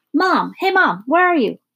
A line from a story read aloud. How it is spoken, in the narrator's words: A loud voice yelled